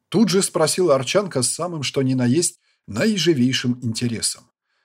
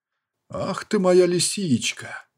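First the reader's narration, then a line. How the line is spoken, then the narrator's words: Growling. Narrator (Russian): Рыкнул я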